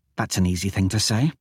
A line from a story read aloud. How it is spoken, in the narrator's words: Thera muttered